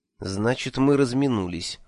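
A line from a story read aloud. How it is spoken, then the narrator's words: Sighing. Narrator (Russian): вздохнул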